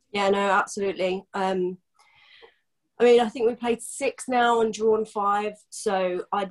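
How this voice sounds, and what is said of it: Congested voice from a cold. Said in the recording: “I actually do have a cold as well, not just man flu, so uh, please excuse my voice.”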